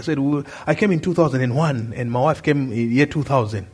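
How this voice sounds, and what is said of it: Zimbabwean accent, not local. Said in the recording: “Your accent is not a local accent ... I'm from Zimbabwe”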